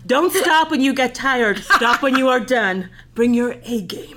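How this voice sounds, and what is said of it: Put-on American accent. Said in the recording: “I'm going to do all these in American accent.”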